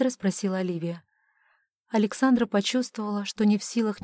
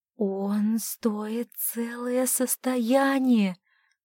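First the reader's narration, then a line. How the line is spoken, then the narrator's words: Drawn-out, unsteady. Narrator (Russian): протянула Оливия, тоже не в силах устоять на ногах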